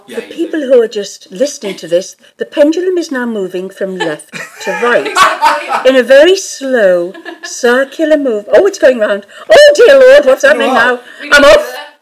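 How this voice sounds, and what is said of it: Well-spoken English accent. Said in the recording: “That was such a well-spoken English accent. The Americans will be loving that.”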